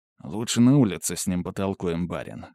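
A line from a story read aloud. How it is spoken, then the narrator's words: Gloomy grumble. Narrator (Russian): хмуро буркнул Владимир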